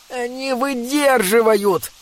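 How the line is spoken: Moaning. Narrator (Russian): простонал Бинабик

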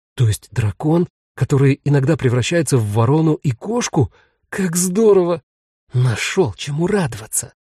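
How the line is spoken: Hissing. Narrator (Russian): зашипела Ниёля

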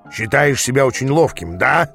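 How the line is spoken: Growl then smirk. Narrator (Russian): зарычал Ааз, а затем усмехнулся

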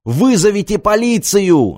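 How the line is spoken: Shouting. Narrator (Russian): закричал Артем

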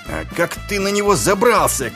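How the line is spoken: Shouted. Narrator (Russian): крикнул Ваймс

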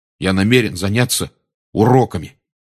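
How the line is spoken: Angry announcement. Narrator (Russian): сердито объявил Рон

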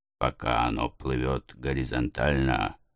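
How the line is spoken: Muttered. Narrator (Russian): пробормотал Нед Ленд

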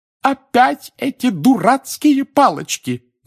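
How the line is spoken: Shout. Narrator (Russian): закричала миссис Уизли

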